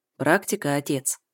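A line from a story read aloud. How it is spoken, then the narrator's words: Calm. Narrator (Russian): спокойно реагирует Слава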